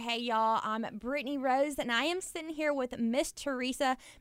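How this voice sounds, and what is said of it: Louisiana Southern accent. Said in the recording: “I'm from Louisiana, and so we have a different accent over here”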